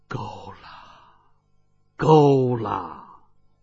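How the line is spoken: Long sigh. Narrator (Chinese): 他方自长叹一声道

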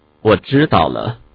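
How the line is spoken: Indifferent, flat. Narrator (Chinese): 李清愁却只是淡淡地说了一句

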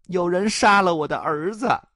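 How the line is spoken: Old woman crying. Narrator (Chinese): 老太婆哭着说

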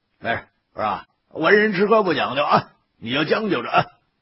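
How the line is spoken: Smiling. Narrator (Chinese): 魏爷冲我笑了笑

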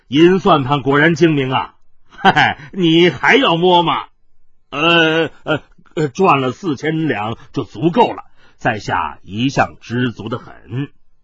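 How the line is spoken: Laughing. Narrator (Chinese): 海大少笑道

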